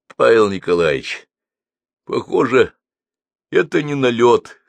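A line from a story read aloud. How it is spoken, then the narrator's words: Hoarse voice. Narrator (Russian): хрипло сказал он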